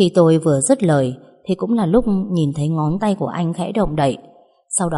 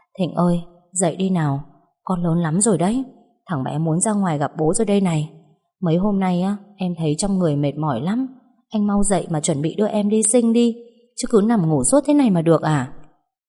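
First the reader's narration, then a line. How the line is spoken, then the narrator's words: Soft, tired voice. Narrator (Vietnamese): Mệt quá tôi khẽ nói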